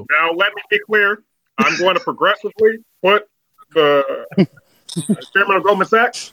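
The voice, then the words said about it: Imitates another person's voice. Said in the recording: “I can't do an Obama impression, and I need that ... perfect down to even the pauses. It was amazing. ... to get that cadence down”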